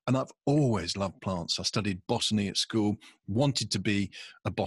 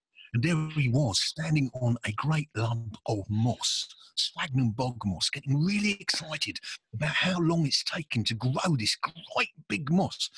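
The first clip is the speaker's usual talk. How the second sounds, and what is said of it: David Bellamy impression. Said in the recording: “he had this wonderful way of talking like this ... since you started doing the voice ... do your David Bellamy impression”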